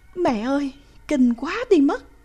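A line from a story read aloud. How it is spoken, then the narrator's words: Involuntary exclamation. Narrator (Vietnamese): cô vẫn không thể không thốt lên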